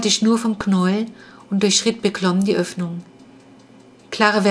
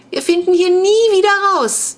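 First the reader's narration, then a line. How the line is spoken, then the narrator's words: Wailing. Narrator (German): jammerte Clara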